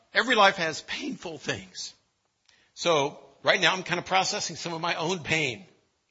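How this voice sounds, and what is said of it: Choked-up, emotional voice. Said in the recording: “I get choked up right now”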